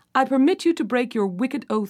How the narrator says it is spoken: said she

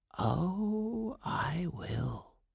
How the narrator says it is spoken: whispered the old woman

